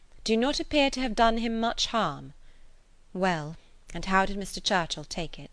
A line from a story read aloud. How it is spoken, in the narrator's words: replied Emma dryly